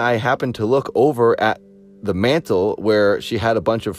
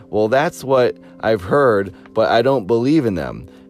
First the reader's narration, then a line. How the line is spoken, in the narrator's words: She laughed and said